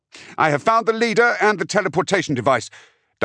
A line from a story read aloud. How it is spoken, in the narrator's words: Dimera snapped over carrier wave